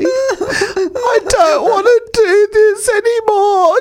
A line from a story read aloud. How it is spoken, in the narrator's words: she said between sobs